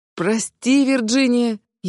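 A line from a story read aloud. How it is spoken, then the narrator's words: Nearly sobbing. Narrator (Russian): едва не рыдаю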